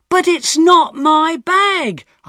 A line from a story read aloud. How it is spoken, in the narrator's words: I shouted